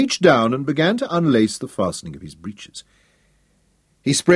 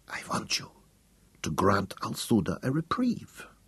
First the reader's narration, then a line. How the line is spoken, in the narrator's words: whispered